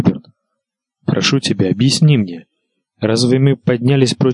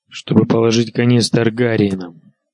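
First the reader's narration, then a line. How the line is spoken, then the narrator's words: Gruff king grumbling. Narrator (Russian): буркнул король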